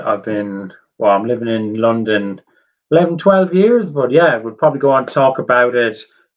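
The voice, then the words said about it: Irish accent. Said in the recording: “I love an Irish accent, and I've managed to pluck out another one here”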